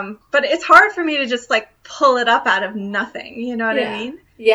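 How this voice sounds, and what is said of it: Usual voice. Nothing is said of it.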